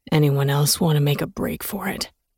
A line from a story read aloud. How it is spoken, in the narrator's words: a man asked in a deep, gravelly voice